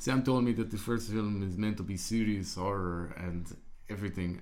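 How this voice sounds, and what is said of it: Put-on Uruguayan accent. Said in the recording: “I'll do my Uruguayan accent.”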